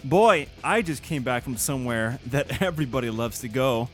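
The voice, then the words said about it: Sarcastic tone. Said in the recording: “are you being sarcastic? ... Of course I'm being sarcastic!”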